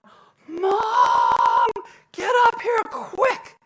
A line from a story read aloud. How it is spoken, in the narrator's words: Robbie and Jimmy yelled down